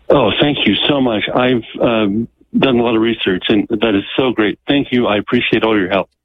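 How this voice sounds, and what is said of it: Relieved, grateful voice. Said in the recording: “I can hear the relief in your voice”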